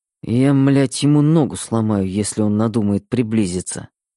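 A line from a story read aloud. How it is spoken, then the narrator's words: Muttering. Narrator (Russian): пробормотал Мэтт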